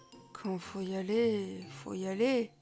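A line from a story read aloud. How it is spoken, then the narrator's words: Boy murmuring for courage. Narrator (French): murmure le garçon pour se donner du courage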